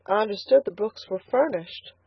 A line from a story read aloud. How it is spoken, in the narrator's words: faltered Elnora